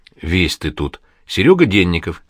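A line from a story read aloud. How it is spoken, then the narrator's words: Sigh. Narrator (Russian): вздохнул Григорий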